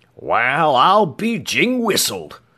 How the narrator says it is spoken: Chow declared, then broke into a gleeful cackle

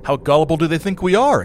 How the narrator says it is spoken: exclaimed one of our guests

